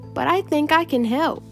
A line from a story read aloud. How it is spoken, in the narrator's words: said brightly